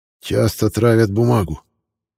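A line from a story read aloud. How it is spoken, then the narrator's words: Tired grumbling. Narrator (Russian): бурчал Дегора с фиолетовыми мешками под глазами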